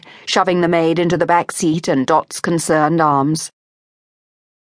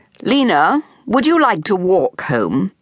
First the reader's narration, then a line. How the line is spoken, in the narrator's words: asked Phryne, her voice as chill as the fog